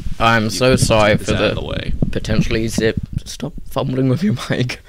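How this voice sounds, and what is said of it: British accent. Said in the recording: “your luscious British accent”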